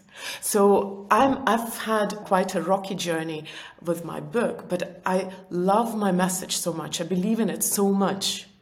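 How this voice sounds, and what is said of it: Noticeable foreign accent. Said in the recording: “I know I have a weird accent”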